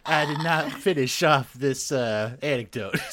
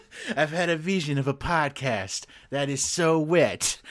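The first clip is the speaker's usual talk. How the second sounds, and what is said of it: George Bush impression. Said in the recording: “great George Bush impersonation ... half Bush, half Clinton”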